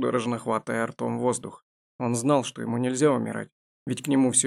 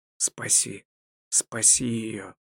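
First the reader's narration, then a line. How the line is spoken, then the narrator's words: Hoarse desperate plea. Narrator (Russian): прохрипел Эйвинд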